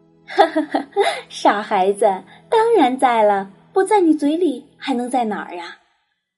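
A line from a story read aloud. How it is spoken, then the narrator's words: Laughing, fond. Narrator (Chinese): 妈妈笑着说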